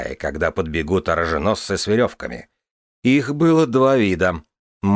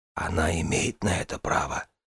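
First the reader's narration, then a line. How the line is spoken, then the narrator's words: Whisper. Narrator (Russian): прошептал Дорни брат Коун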